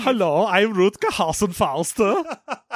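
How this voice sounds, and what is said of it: Put-on German accent. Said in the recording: “I am German, as the two of us are doing very convincing accents”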